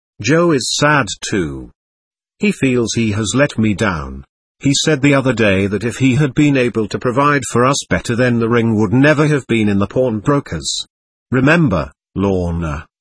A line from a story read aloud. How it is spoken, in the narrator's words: Michael said